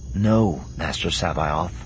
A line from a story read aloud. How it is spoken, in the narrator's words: Skywalker said, his voice almost gentle